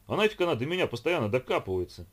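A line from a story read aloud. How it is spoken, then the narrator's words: Offended complaining. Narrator (Russian): обиженно пожаловался Вовка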